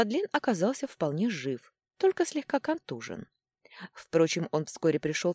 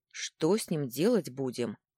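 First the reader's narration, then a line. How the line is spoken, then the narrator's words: Grim question. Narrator (Russian): мрачно спросил он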